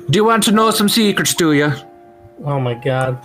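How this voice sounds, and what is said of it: Put-on mixed Swedish-Irish accent. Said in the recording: “What is this accent? ... it's several things. ... It's a Swedish person who got taught English as a second language by from someone from County Kerry, Ireland. ... the IKEA production of Riverdance”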